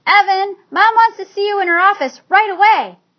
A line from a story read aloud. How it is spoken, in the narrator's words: Jessie shouted